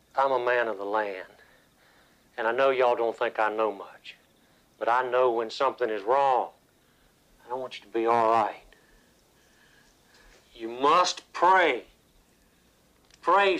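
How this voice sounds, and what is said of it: Country accent. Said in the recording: “who has a country accent”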